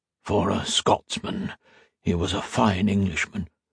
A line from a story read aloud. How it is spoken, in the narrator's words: a portly man in the pew ahead of her whisper